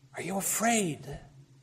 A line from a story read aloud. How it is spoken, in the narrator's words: found breath to whisper, shaking